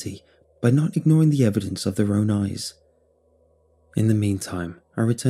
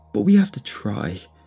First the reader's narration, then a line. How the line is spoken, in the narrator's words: he cried